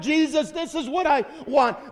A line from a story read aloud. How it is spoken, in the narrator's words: You shout all the louder